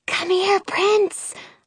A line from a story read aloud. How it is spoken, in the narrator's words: I whisper